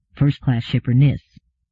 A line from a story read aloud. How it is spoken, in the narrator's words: he said quietly